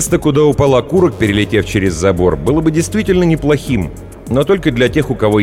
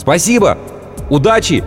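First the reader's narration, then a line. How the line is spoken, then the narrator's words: Shouted. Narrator (Russian): крикнула афганка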